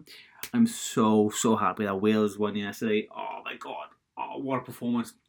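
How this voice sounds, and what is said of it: Welsh accent. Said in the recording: “I'm Welsh, so I guess I guess if, if you didn't know that from my accent by now”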